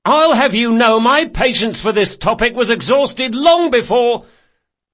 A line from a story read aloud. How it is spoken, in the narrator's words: Locke's voice was rising to a shout